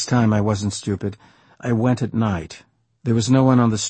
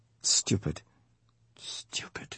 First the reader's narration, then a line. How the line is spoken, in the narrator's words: He kept muttering